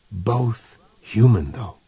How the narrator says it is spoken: whispered the speaker

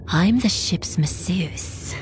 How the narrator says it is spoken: purred

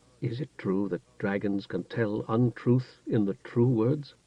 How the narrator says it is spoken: Alder asked the Pelnish wizard softly

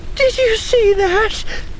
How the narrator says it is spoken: Alenia asked yet again, her voice still shaking

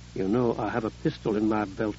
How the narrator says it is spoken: She said softly

